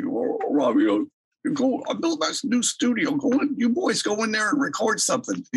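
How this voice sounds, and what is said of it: Imitates another person's voice. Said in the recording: “my Albert impression isn't that great ... I should work on a better impression.”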